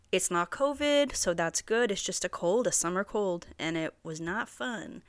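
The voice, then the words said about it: Congested, stuffy-nosed voice. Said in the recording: “Still obviously a little congested. ... My voice is probably a little congested.”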